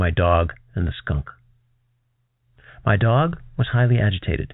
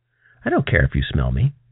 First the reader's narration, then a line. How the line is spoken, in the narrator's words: it says